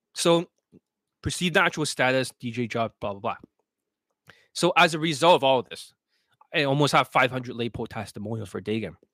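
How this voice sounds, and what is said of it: Strained, failing voice. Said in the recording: “Losing my voice. ... I'm losing my voice.”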